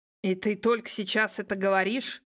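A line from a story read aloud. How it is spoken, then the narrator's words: Growling. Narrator (Russian): зарычал Егор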